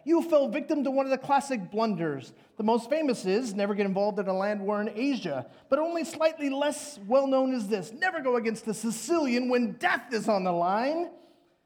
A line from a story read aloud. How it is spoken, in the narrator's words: cried the hunchback